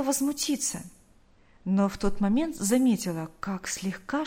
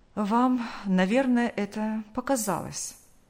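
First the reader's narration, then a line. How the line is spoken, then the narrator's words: Calm. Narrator (Russian): Врач спокойно произнес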